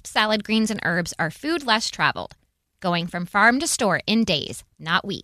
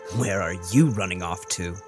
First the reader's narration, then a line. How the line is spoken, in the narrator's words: Judah scoffed